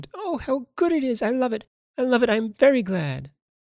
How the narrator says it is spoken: Violet exclaimed

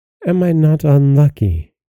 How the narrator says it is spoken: cried the poor princess

